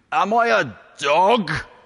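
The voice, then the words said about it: Deep booming Brian Blessed impression. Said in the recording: “The voice, of course, would be that of Brian Blessed. A deep, booming voice. ... a very good impression”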